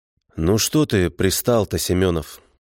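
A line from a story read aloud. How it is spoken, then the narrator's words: Hollow, muffled voice. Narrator (Russian): Голос его звучал глухо, как из пустой бочки, брошенной на задворках пивзавода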